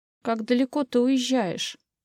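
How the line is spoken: Trembling voice. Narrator (Russian): дрогнувшим голосом сказала мама

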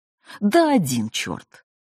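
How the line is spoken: Joyful interruption. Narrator (Russian): радостно перебил Степан Ашотович

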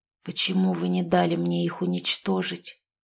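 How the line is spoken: Barely audible question. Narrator (Russian): едва слышно спросил

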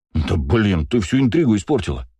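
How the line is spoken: Indignant outburst. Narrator (Russian): возмущенно взвился бегемот

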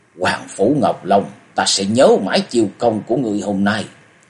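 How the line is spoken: Furious gritted voice. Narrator (Vietnamese): Đôi thần nhãn của Diệp Kiên long lên sòng sọc, hắn gằn giọng nói

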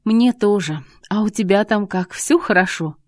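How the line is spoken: Dreamy sigh. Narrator (Russian): Лида мечтательно вздохнула

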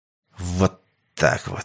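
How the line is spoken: Hissed through gritted teeth. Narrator (Russian): сквозь зубы прошипел Сергей

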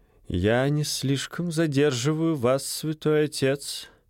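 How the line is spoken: Plain. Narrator (Russian): спросил виконт

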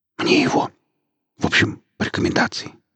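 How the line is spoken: Whisper. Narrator (Russian): зашептал шеф

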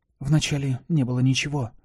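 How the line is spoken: Mumbling. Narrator (Russian): Пробормотала я

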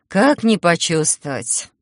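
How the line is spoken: Sigh. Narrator (Russian): вздохнула я

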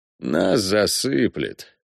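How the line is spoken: Glum. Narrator (Russian): уныло сообщил регенту Марсель

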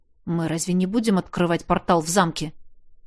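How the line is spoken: Undertone question. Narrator (Russian): вполголоса спросил я у стоящего рядом Ринакерта

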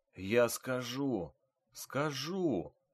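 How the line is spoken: Whispering through broken lips. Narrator (Russian): пытался шептать разбитыми губами Лёшка Хват

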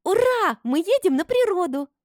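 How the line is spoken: Excited squeal. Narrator (Russian): взвизгнула, подбегая сзади и пытаясь обнять одновременно всех нас

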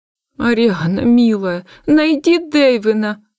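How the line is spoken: Pleading. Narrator (Russian): взмолилась госпожа Амельда

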